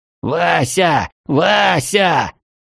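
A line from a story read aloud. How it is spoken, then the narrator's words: Frantic yelling. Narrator (Russian): заполошенно вопил он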